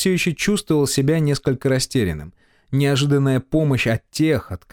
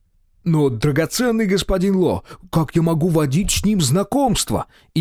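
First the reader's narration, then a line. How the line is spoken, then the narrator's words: Sincere exclamation. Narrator (Russian): Искренне, словно и сам в это верил, воскликнул наркоторговец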